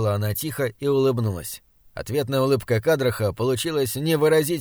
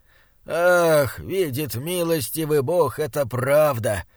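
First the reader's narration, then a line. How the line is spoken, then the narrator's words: Moaning. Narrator (Russian): простонал он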